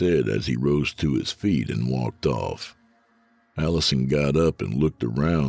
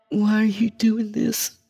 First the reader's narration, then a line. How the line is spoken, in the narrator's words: Allison whimpered